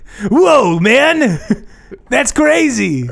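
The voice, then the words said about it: Laid-back surfer voice like Shaggy. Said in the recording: “I wanted to act like I was a 14-year-old surfer kid ... you talk like Shaggy”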